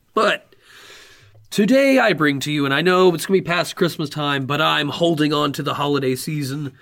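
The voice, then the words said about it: Tired, worn-out voice. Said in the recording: “My voice is a little tired because I'm just now getting over being sick and coughing a lot, so my voice is worn out.”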